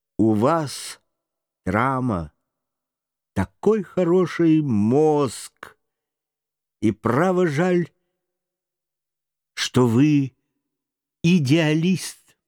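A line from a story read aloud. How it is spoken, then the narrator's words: Thoughtful. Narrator (Russian): задумчиво говоря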